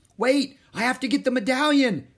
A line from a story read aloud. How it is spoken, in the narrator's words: shouted Jack